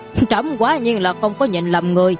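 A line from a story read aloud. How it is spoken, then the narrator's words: Startled, then loud laugh. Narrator (Vietnamese): Trần Hoàng giật mình, sau đó lại cười lớn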